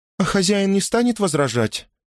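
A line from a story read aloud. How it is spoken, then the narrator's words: Timid question. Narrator (Russian): робко спросила Джейн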